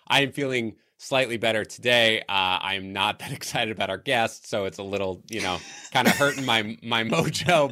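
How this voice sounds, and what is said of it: Low, sultry voice from a cold. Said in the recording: “who is this sultry toned man ... sounding and feeling a little bit better today ... power through this very mild cold that I'm dealing with. Yes, my voice was unfortunately impacted.”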